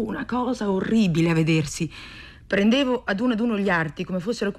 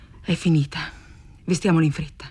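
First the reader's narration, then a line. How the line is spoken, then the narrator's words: Murmured. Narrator (Italian): mormorai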